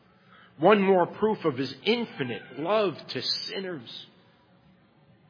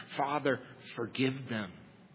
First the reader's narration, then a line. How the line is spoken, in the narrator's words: Jesus bleeds and pleads for them